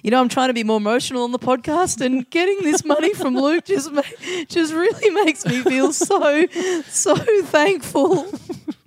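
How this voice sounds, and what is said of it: Crying, tearful voice. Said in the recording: “That was me crying, not doing an impression of Luke McGregor ... You just make it sound like you're constantly on the verge of tears.”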